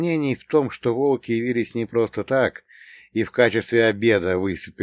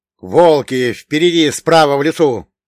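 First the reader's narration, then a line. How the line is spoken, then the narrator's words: Urgent warning shout. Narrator (Russian): тут же крикнул я, предупреждая своих товарищей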